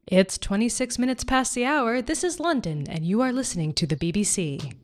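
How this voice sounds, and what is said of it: Attempted BBC broadcaster voice. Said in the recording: “What would I have to say to sound like the BBC ... I don't know what I'm imitating”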